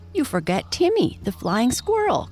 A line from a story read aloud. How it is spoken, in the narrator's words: cried Peter excitedly